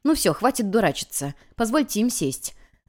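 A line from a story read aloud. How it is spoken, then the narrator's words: Snort, then request. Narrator (Russian): Я хмыкнула и попросила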